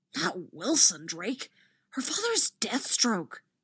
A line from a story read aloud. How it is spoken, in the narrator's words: a round-faced Hufflepuff hisses